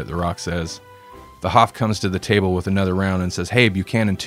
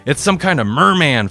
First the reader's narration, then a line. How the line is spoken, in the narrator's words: Flash yells